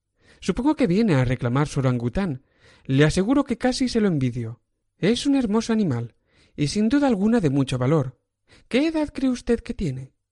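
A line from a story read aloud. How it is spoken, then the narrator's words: Deep sigh, then firm voice. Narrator (Spanish): El marinero suspiró hondamente, como quien se alivia de un enorme peso, y contestó luego con firme voz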